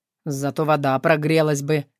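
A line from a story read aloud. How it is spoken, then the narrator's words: Wry snort. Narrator (Russian): хмыкнул Тарас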